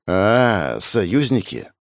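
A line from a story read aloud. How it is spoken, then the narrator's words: Thoughtful drawl. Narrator (Russian): Задумчиво протянула Арина, будто пробуя слово на вкус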